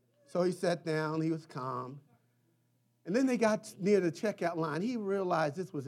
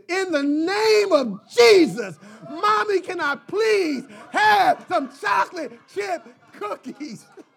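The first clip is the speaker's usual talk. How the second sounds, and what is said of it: Loud shouted child's plea. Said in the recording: “in his loudest voice”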